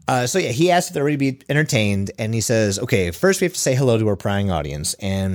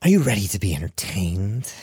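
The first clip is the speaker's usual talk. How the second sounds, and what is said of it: Creepy imitation of a movie villain. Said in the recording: “your best impression of like Heath Ledger's Joker ... That was pretty good. That was creepy.”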